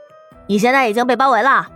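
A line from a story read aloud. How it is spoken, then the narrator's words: Loud shout. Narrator (Chinese): 一个声音大声喊道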